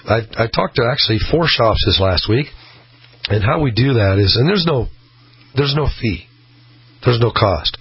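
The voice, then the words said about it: Worn, not fully there voice. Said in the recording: “my voice is kind of not all the way there, because I've been busy talking”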